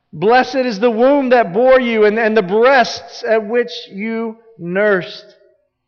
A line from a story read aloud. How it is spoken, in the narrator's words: the woman shouts out